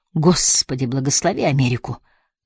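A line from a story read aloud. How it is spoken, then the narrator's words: Trembling declaration. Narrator (Russian): дрожащим голосом заявил Спенсер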